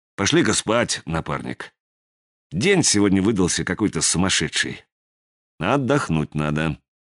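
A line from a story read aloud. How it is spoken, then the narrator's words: Gentle suggestion. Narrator (Russian): Сизый мягко предложил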